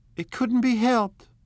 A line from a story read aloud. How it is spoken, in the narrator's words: cried Daisy, with tense gaiety